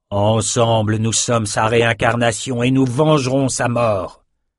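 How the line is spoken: Loudest roar. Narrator (French): il rugit plus fort que jamais dans sa vie

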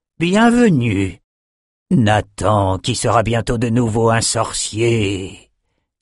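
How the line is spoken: Strangely enthusiastic. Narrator (French): dit-il d'un ton étrangement enthousiaste

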